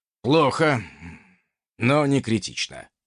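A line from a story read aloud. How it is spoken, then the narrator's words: Sighing. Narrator (Russian): вздохнул собеседник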